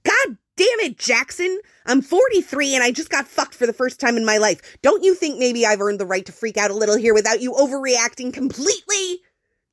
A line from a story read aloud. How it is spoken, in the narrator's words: Jack yelled